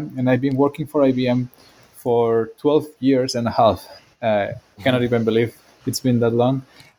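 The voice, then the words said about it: Spanish accent. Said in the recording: “You'll see that from my accent. I'm from Spain”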